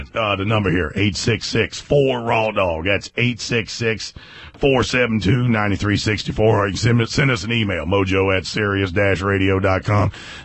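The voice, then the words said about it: Rough, strained sick voice. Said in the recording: “why my voice is all fucked up? ... What's wrong with your voice? ... I got a little... little chest cold”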